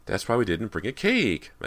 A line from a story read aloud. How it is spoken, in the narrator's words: Meg exclaimed